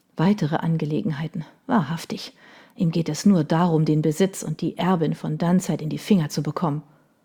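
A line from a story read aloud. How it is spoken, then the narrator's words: Muttered. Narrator (German): hörte sie ihre Mutter murmeln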